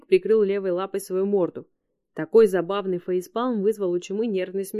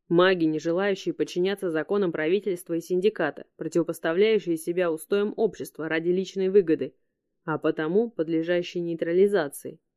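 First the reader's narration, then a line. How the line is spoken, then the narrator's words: Plain. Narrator (Russian): ответил Санджа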